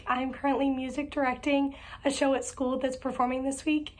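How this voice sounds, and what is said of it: Nearly lost, hoarse voice. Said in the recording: “As you can hear, my voice is pretty much all the way gone”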